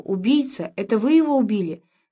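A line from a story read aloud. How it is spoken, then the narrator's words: Exclaimed. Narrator (Russian): Сэр Ванинг воскликнул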